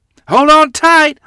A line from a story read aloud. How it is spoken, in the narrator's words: yelled